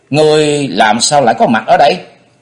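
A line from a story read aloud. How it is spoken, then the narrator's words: Angry, flustered shout. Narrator (Vietnamese): vừa giận vừa quán, cô hét to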